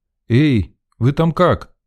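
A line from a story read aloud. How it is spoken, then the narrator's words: Shouting downward. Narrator (Russian): крикнул вниз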